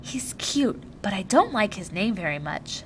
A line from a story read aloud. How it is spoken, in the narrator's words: She turned and whispered to them